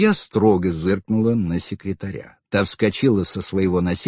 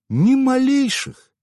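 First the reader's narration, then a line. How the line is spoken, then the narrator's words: Warm cooing. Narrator (Russian): Сердечно проворковал Караянис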